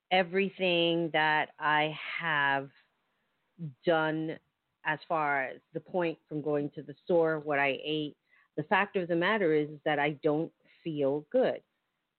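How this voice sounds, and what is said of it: Slightly scratchy voice. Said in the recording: “I don't know if you can hear in my voice that I'm a little scratchy.”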